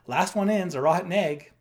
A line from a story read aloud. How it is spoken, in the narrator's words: somebody shouted